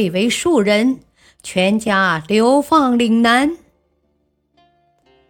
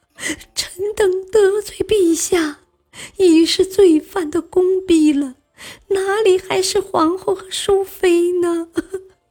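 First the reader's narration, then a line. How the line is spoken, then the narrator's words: Weeping. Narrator (Chinese): 王氏……泪水刷刷直流，哭道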